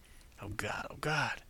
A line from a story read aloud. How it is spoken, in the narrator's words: Zack murmured